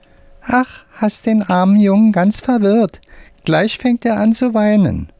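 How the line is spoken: Squeaky voice. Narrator (German): sagt mit piepsiger Stimme

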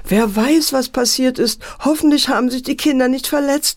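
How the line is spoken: Mother wailing. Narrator (German): jammerte die Mutter

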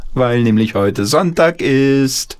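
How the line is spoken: Grandmother calling out. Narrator (German): rief die Oma ins Bad

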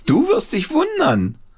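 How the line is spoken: Called out. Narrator (German): rief Paul

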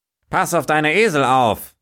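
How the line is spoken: Farmer calling out. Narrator (German): rief der Bauer gleich

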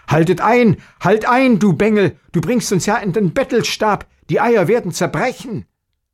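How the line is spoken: Alarmed shout. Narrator (German): dass der Vater erschrocken rief

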